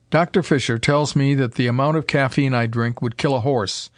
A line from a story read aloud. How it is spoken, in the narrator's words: he said with a chuckle